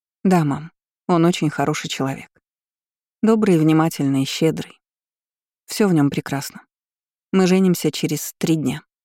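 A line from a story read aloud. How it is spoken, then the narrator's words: Plain. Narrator (Russian): сказала я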